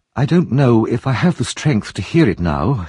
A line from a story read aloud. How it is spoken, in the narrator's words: she murmured